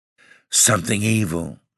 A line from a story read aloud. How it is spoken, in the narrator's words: she said, and her voice was shaking